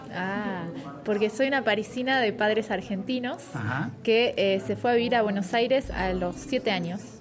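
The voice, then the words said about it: Argentine-accented Spanish. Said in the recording (Spanish): “¿por qué una parisina tiene ese acento?”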